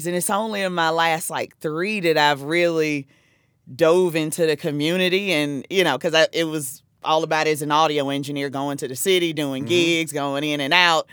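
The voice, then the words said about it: South Carolina Southern US accent. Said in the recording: “you could tell by my accent, I'm not from Jersey. I'm from South Carolina”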